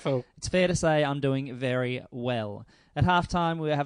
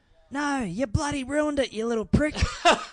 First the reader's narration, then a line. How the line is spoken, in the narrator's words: The man yelled